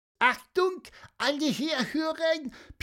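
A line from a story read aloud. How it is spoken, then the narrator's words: Squeaky voice. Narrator (German): piepste Pieper deshalb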